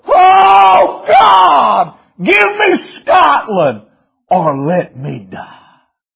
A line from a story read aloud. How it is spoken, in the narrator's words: kept hollering over and over